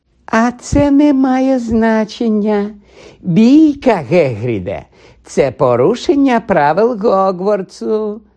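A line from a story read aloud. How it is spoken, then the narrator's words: Sugary sweet voice. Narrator (Ukrainian): сказав солоденьким голосом Снейп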